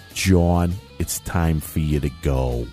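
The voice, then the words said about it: Imitated Connecticut accent. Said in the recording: “he's from Connecticut, so he had this accent.”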